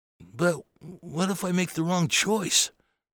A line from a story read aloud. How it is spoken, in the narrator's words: Bobby said in a small voice